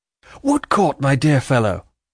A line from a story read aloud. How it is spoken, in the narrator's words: cried Richard